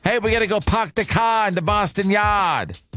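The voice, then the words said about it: Put-on Boston accent. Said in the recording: “forgive my Boston accent”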